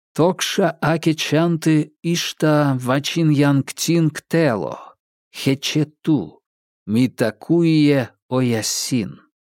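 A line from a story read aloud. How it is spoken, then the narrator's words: Normal voice. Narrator (Russian): уже обычным голосом произнес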